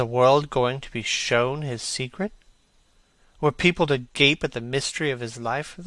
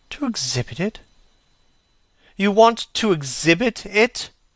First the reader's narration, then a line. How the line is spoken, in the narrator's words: exclaimed Dorian Gray, a strange sense of terror creeping over him